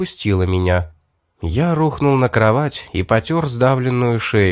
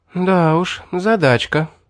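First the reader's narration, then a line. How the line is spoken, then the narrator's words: Sighing young woman. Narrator (Russian): вздохнула девушка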